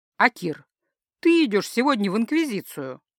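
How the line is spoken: Joyful conclusion. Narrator (Russian): радостно закончил Константин

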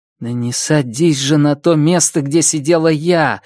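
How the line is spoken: Pleading. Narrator (Russian): взмолилась она

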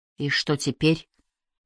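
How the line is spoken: Weak exhausted whisper. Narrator (Russian): слабо прошептала обессиленная Кайя

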